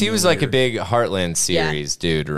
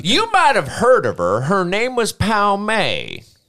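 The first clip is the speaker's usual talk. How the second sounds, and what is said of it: Imitates another person's voice. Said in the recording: “that was my impression”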